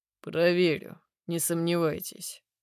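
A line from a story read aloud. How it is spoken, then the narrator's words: Gloomy man's reply. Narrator (Russian): отзывается мужчина мрачно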